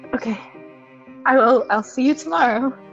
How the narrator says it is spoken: She's gonna sigh and go

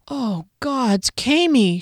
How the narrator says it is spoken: she moaned

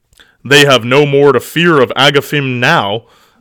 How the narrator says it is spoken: bellowed Grignr in a deep, mirthful tone, a gleeful smirk upon his face

